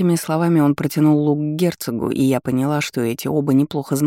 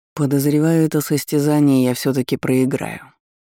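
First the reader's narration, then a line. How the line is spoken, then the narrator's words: Displeased voice. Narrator (Russian): недовольным голосом произнес герцог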